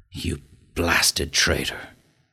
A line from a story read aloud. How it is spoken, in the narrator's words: hissed McGinty through his closed teeth